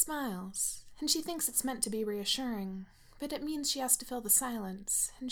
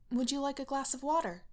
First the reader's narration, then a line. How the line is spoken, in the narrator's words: offers stiffly